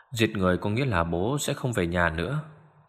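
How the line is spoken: Soft woman's voice. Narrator (Vietnamese): Người phụ nữ khẽ nói

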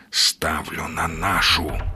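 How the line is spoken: Whisper. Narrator (Russian): прошептал Сергей

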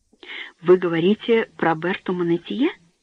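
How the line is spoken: Trembling voice. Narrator (Russian): спросил он дрожащим голосом

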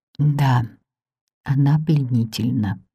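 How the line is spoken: Whispered. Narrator (Russian): прошептал он

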